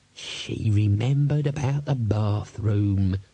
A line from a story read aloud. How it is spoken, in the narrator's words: he muttered